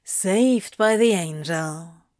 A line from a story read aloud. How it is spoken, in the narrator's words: he sighed